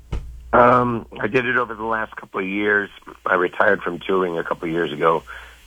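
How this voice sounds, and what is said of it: Hoarse, worn-out voice. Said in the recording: “Excuse my voice is a bit shot from, I flew all night to get in”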